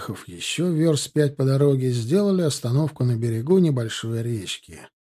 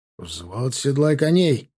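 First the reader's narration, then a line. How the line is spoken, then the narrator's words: Barked order. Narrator (Russian): рявкнул Тимофей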